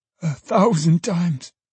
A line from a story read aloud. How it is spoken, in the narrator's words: cried Trotty